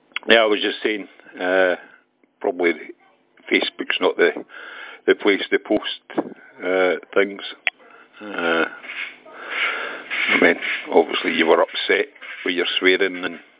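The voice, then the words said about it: Scottish accent. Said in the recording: “I didn't quite catch the Scottish accent ... I didn't think my accent was as strong”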